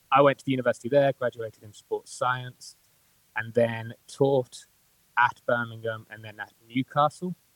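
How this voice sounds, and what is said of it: Birmingham English accent. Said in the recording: “Birmingham ... that's Birmingham for you. So if you can't understand my accent, it's probably because of that.”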